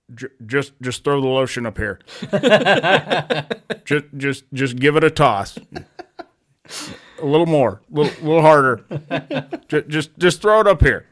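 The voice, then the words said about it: Impression of Buffalo Bill. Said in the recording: “Does an impression of Buffalo Bill from Silence of the Lambs”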